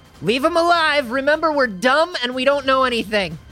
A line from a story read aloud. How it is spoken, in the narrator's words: Chirp is just going to scream out